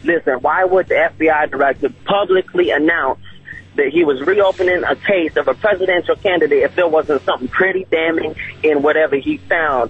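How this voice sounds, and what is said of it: Distinctive regional accent. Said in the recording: “I love your accent. You're like a character out of the movie Quarry. Where are you from? Mississippi? ... What a great accent.”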